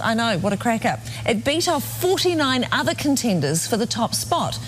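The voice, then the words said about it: New Zealand accent. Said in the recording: “Here's the New Zealand accent.”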